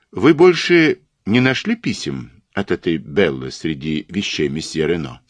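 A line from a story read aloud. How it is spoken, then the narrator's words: Plain question. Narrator (Russian): спросил Пуаро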